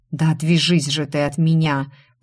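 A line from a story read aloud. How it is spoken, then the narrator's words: Groaned. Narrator (Russian): простонал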